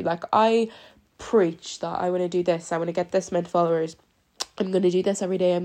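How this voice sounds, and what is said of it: Sick-sounding voice. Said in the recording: “I'm actually kind of sick at the minute. You can probably hear it in my voice.”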